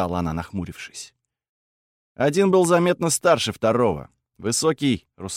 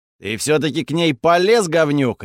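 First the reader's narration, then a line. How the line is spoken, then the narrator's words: Bark. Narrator (Russian): рявкнул Таурон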